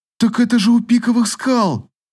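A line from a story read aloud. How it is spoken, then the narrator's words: Exclaimed. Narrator (Russian): воскликнула Эвейна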